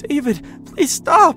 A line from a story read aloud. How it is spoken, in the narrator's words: she screeched in terror, horrified out of her mind